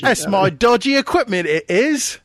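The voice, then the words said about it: Dodgy put-on English accent. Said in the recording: “my dodgy English accent”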